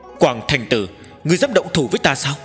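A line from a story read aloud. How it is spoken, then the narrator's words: Angry loud shout. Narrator (Vietnamese): Nguyên Thủy Thiên Tôn tức giận quát lớn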